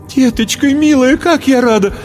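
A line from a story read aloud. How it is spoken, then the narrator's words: Tearful joyful exclamation. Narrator (Russian): воскликнула, всхлипнула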